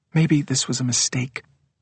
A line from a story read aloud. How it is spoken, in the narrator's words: she says quietly to David